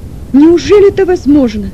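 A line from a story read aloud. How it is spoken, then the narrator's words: Sick man nearly shouting. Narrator (Russian): почти с криком произнес больной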